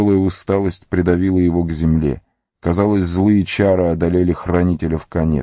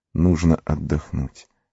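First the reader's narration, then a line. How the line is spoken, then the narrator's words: Muttered again. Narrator (Russian): пробормотал он снова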